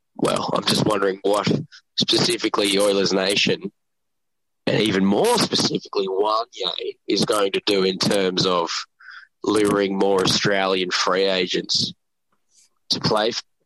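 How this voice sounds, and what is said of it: Australian accent. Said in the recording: “his accent... It's good to hear an Australian voice again.”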